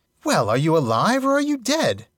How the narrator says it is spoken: asked Bilbo quite crossly

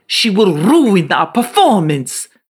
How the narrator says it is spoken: screeched Otello

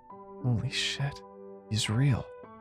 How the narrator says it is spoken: muttered to myself

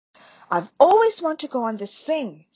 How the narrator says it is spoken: said Ron happily

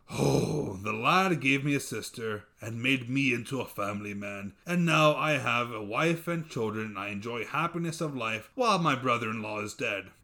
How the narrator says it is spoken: He sighed

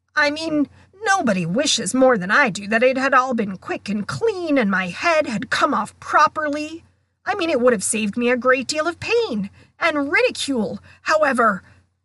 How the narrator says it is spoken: nearly headless Nick read furiously

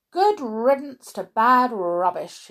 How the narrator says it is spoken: he said

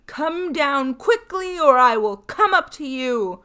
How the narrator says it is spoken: he shouted again and as loudly as he could bawl

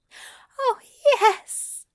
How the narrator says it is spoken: Aziraphale whimpers

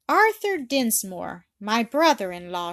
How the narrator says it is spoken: she cried

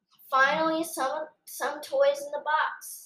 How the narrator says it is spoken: sighed Spencer's mom

